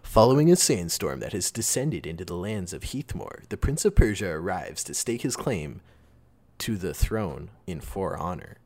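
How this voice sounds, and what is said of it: Movie trailer announcer voice. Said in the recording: “going to do the movie guy voice.”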